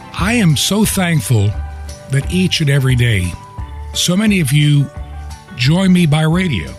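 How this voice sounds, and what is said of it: Weak, strained voice. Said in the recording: “my voice is still a little bit weak, but it is a lot stronger than it was a week ago”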